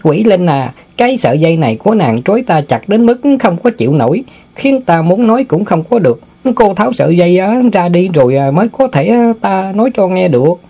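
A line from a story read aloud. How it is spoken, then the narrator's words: Chuckling, slight coughs. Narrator (Vietnamese): Tiểu Ngu bật cười húng hắn mấy cái rồi nói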